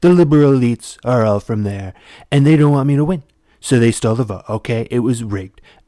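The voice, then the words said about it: Imitates another person's voice. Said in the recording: “my Trump impression”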